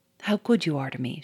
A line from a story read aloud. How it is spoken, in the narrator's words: she murmured tenderly